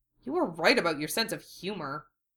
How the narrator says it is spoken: Duo muttered

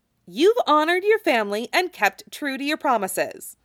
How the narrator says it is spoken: says firmly

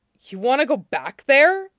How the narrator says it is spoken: Mean blurted

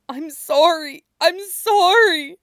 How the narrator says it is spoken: sobs

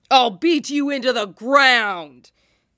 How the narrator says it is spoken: Kisame bellows

